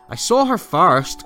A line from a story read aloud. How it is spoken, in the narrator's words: cried the boy